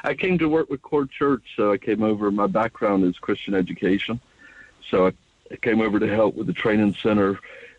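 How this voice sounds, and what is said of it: American accent. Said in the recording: “Is that a U.S. or a Canadian accent? ... That's a U.S. accent”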